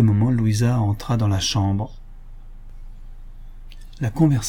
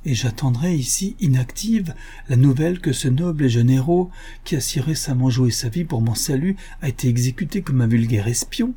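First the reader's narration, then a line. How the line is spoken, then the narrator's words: Emotional outburst. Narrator (French): s'écria Louisa dans l'emportement de son émotion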